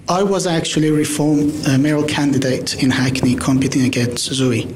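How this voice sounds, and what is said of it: Foreign, non-local accent. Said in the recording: “as you can tell, my accent is not from here.”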